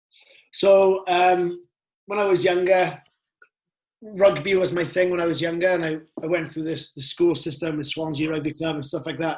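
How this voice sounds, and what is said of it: Welsh accent. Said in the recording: “you've got a Welsh accent”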